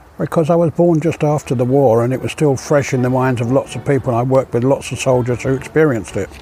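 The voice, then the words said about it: English accent. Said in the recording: “you have an English accent”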